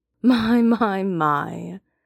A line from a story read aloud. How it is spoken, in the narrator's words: Tian Fengmian says with a chuckle